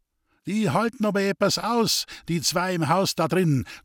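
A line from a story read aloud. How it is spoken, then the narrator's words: Laughing voice from crowd. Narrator (German): klang es lachend aus dem Gedräng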